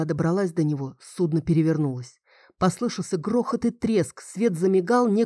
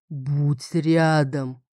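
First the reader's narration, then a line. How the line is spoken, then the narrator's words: Booming. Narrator (Russian): прогудел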